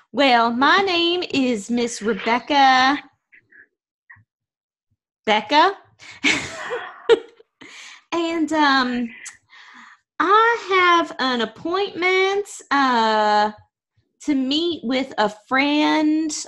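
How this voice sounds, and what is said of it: Put-on accent that shifts mid-speech. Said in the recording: “I think I just changed my accent.”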